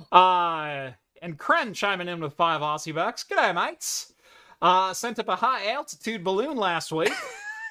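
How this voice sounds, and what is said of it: Good put-on Australian accent. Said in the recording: “Wow, that's really good. You just did that really well, actually. ... That is the best Australian accent I have ever done. ... That was impressive.”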